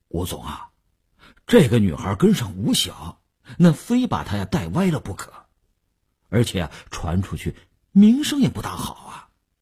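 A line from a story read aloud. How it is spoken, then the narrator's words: Hesitant reluctant. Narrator (Chinese): 李大公欲言又止，李大公才说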